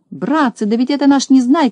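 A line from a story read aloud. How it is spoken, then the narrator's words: Shouting. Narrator (Russian): закричал Тюбик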